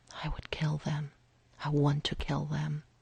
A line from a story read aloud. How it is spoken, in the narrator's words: whispered